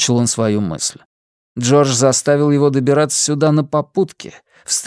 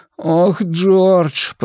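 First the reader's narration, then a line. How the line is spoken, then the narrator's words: Groaning. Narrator (Russian): простонал Блейз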